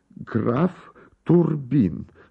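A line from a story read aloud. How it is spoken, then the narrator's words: Broken, halting voice. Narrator (Russian): сказал он прерывистым голосом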